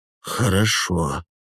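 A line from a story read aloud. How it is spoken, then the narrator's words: Hoarse agreement. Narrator (Russian): хрипло соглашается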